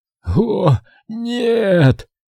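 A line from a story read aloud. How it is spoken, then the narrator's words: Weak moan. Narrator (Russian): слабо простонал Луи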